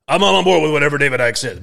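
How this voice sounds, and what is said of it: Imitates another person's voice. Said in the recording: “that's a pretty good impression, by the way. ... It's not that good”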